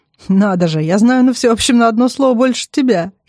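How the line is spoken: Giggling. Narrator (Russian): хихикаю

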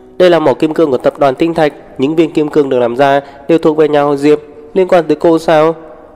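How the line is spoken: Angry, sneering. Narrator (Vietnamese): Bella nãy giờ vẫn thấy tức tối, cười khẩy

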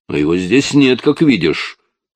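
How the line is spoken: Convincing snap. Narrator (Russian): убедительно огрызнулся Джозеф

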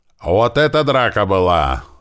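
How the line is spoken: Excited yelling. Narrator (Russian): орал возбужденный Слива

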